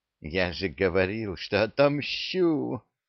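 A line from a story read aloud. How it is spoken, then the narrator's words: Hiss in the ear. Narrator (Russian): прошипел ему на ухо Пий-17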